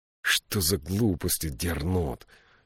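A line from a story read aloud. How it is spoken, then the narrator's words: Angry question. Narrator (Russian): сердито спросил Джошуа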